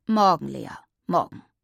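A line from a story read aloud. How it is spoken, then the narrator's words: Father growling behind newspaper. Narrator (German): knurrte Papa hinter seiner Zeitung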